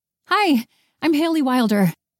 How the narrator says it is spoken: she blurted out

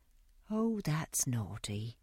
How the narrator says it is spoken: said Dolly gently

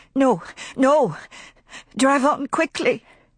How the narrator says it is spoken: she sobbed

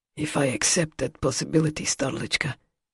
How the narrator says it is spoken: he said, his tone raw

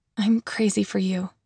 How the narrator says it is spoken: I whispered

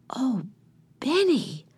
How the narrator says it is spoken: whispered Jesse

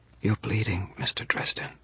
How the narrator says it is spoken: she whispered

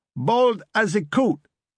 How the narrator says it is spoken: shouted Armati

